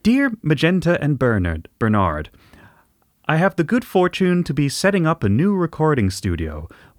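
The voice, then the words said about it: Put-on Canadian accent. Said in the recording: “I'd probably do an awful job of it because it's to our untrained English ears, it sort of sounds close to an American accent, but not quite. A bit softer ... I do apologise for this Canadian accent”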